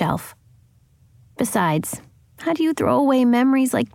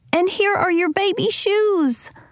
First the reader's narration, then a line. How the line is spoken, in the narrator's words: she cried